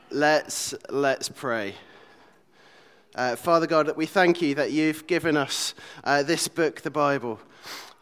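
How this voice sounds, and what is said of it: Hoarse, fading voice. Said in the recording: “As you can probably hear, I'm losing my voice”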